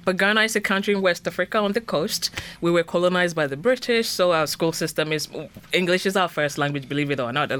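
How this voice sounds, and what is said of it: Ghanaian-accented English. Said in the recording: “that beautiful accent”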